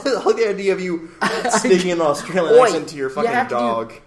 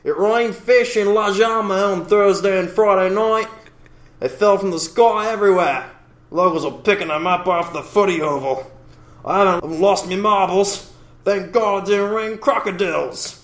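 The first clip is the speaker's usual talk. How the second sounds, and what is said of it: Put-on Jewish Australian accent. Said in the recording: “Can I do it in a Jewish accent? ... Let's just say it's a Jewish Australian. ... That was amazing. That was so good.”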